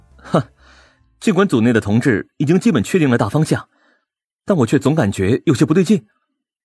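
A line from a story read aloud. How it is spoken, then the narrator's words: Rueful, embarrassed laugh. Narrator (Chinese): 我有些惭愧的苦笑道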